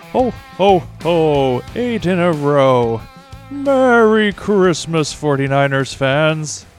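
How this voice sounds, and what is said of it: Santa Claus character voice. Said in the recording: “You sounded just like Santa in the old Rudolph special. ... not my worst impression”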